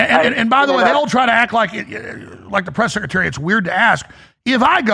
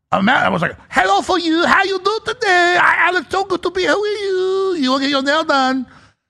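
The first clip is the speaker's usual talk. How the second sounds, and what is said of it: Mock Japanese or Chinese accent. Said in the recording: “speaking in like a Japanese accent or a Chinese accent”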